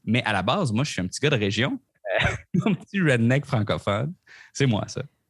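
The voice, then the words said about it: Rural Québécois French accent. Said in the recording (French): “on l'aura deviné à ton accent, euh, tu n'es euh, dans la merveilleuse ville de Québec ... Je suis de Québec ... c'est pour ça mon accent”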